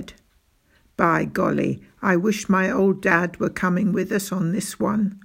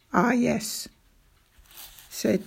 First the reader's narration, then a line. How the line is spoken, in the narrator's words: he said, giving a little sigh